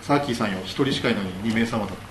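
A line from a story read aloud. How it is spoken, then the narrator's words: Plain. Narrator (Japanese): って言ってて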